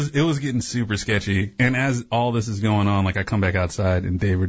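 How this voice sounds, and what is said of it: Usual voice. Nothing is said of it.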